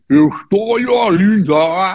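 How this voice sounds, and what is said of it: Portuguese with put-on English accent. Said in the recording (Portuguese): “botava um ovo na boca para poder imitar uma, um, um sotaque anglófono”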